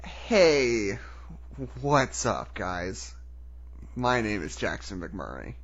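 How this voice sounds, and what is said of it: Gravelly voice, like the Joker. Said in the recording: “you started, like, kind of gravelly, and I was like, is he trying to do the Joker?”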